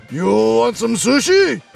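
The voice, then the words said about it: Mock samurai voice. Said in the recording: “say in my best samurai voice”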